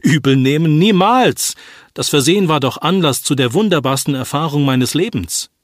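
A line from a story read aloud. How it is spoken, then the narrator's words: Surprising exclamation. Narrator (German): Zu ihrer großen Überraschung rief der Patient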